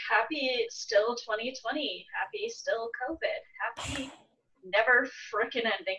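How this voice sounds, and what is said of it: Usual voice. Nothing is said of it.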